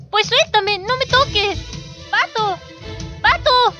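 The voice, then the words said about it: Shouting. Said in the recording (Spanish): “No grites.”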